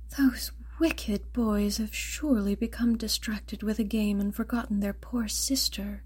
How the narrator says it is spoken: The mother, finally growing impatient with exhaustion, sighed

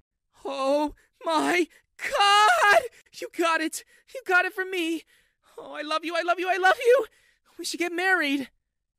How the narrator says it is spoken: Sally screamed

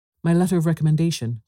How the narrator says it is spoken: cried D'Artagnan

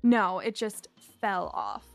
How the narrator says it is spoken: I said sarcastically

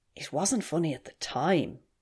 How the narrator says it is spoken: Elsie whispered

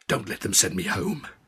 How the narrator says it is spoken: hissed

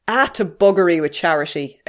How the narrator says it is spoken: exclaimed Mrs

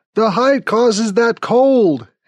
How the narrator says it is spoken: he shouts

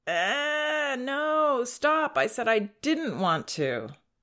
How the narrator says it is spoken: she whines

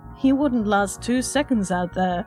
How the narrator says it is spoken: Leslie scoffed

